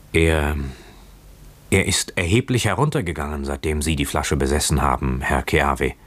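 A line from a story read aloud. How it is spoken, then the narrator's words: Stammering young man. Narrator (German): versetzte stammelnd der junge Mann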